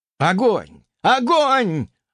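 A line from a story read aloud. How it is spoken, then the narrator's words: Excited yelling. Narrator (Russian): азартно завопил Инжир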